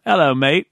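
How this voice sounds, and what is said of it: Fake English accent. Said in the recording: “some fake English accents that I learned from watching BBC shows”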